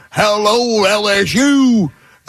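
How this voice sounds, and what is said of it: Brian Kelly's fake Southern accent. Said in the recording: “This guy feigns a Southern accent... he's talking like this”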